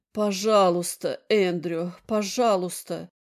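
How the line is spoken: Hoarse plea. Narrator (Russian): ее хриплый призыв

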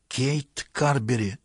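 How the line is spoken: Hissing whisper. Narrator (Russian): свистящим шепотом проговорила

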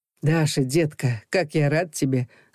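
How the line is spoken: Laughing. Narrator (Russian): засмеялся Илья

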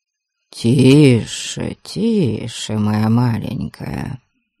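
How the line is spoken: Sympathetic murmur. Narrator (Russian): Сочувственно пробормотал Абальд

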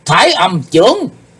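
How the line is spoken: Shout. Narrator (Vietnamese): Sau tiếng hét đó

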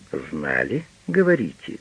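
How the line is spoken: Quiet speech. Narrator (Russian): тихо произносит лейтенант

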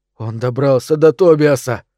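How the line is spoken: Hoarse. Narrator (Russian): прохрипел я

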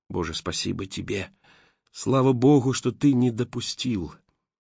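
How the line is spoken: Whispered. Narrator (Russian): продолжаю шептать

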